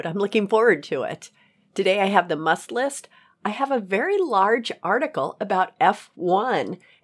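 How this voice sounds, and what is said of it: Voice lower than usual. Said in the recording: “My voice is a little bit lower than usual today”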